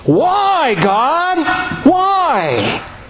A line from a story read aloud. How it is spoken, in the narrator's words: our whole nature screams